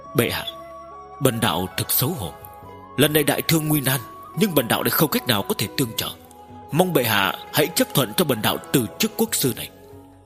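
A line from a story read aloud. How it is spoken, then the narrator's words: Hesitant sigh. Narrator (Vietnamese): Thân công báo lộ ra vẻ do dự, thực lâu sau mới thở dài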